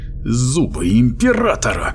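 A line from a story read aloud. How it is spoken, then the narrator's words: Irritated exclamation. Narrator (Russian): раздраженно воскликнул банник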